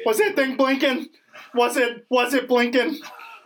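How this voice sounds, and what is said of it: Imitates another person's voice. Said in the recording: “That's my Bill Burr impression... Spot on, man... You're 100%.”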